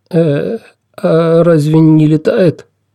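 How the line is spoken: Timid question. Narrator (Russian): робко спросил Олаф

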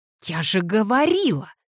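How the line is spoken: Exclaiming. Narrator (Russian): воскликнула Кассандра

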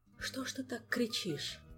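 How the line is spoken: Whisper between kisses. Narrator (Russian): прошептал Кантор в промежутках между поцелуями

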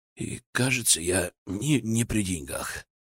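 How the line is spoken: Muttering. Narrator (Russian): пробормотал

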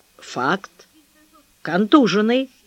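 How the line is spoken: Stern confirmation. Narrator (Russian): Митя строго подтвердил

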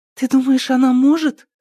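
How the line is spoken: Frightened question. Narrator (Russian): испуганно спросила Мария

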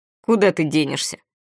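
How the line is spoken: Snorted. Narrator (Russian): фыркнул Моро

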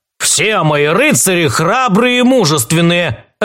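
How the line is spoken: Snapping. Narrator (Russian): огрызнулся капитан

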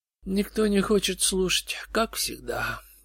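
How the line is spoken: Sad remark. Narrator (Russian): печально заметил безумец

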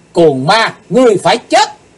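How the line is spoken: Shout. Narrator (Vietnamese): Cùng trong tiếng hét

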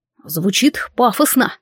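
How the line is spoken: Smirking grunt. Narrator (Russian): хмыкнул

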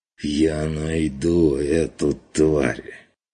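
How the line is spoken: Strained hiss. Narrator (Russian): Шипением выдавил фон Вигерхоф, складывая слова через силу

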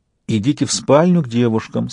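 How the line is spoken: Calm command. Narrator (Russian): спокойно распорядилась Яна

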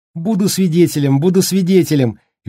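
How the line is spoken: Cheerful. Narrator (Russian): весело подхватил Денни

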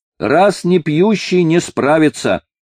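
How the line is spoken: Mischievous shout, young woman. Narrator (Russian): озорно выкрикнула полногрудая молодица

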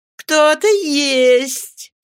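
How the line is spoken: Laughing speech. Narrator (Russian): смеясь, промолвила она

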